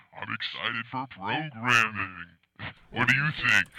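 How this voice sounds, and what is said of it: Unusually deep, low voice. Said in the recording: “my voice is getting deeper. My voice is so... it's getting so low”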